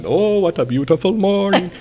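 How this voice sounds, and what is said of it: Sings in imitated Indian accent. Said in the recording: “my cab driver was singing "Oh, What a Beautiful Morning" ... Indian ... So he has this wonderful Indian accent.”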